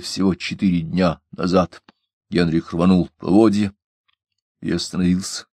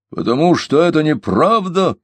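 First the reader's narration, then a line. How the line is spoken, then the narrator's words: Shout. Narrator (Russian): крикнул он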